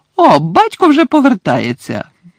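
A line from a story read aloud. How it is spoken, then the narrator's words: Sudden exclamation. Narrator (Ukrainian): раптом вигукнула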